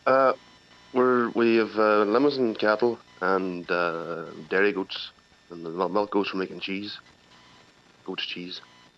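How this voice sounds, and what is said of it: Irish Donegal accent. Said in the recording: “you obviously haven't lost the Donegal accent ... you really haven't lost it”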